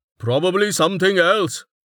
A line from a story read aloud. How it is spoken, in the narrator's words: Tech shouted back, airing his thought